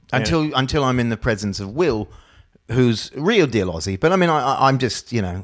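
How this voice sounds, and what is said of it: Strong Australian accent. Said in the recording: “you have such a, to us, you have a strong Australian accent”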